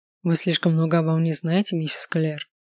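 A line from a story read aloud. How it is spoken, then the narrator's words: Soft, charming, smiling. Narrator (Russian): улыбнулся тренер в характерной ему мягко обаятельной манере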